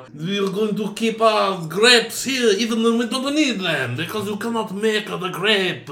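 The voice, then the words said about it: Put-on French accent drifting Italian. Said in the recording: “You started to get a little Italian... at first you were like, oh, bonjour”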